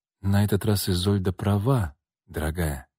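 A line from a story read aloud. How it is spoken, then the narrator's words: Soft. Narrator (Russian): тихо произнесла Людмила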